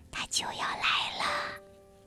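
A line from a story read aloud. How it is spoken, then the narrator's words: Low voices together. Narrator (Chinese): 所有的动物都低声说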